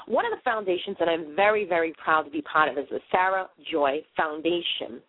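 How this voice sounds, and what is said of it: Boston accent. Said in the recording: “I butcher things because of my Boston accent”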